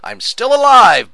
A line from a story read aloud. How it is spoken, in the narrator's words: Butch shouted